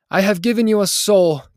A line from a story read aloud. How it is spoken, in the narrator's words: cried the Lord